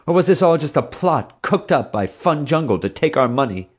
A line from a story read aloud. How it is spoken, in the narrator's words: Much of the crowd angrily seconded this thought